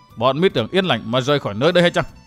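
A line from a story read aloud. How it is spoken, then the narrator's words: Cold sneering question. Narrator (Vietnamese): quái phổ cười nhạt hỏi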